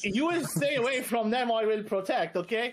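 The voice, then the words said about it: Put-on Arab accent. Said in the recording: “say it in an Arab accent”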